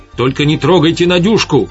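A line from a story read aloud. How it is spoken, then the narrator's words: Shaky shout. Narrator (Russian): крикнула Светлана дрогнувшим голосом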